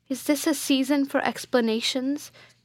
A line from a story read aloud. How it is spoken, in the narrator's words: cried Theodore